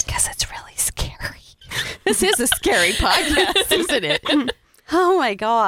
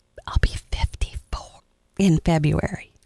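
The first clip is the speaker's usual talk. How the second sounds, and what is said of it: Whispered speech. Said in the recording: “Why did you whisper it?”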